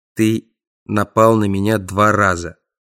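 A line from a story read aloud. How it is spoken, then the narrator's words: Menacing declaration. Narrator (Russian): заявил я бедолаге как можно более грозно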